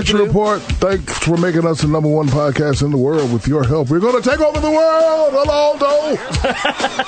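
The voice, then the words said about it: Exaggerated radio announcer voice. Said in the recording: “You like my radio voice ... You auditioning? What the hell was that?”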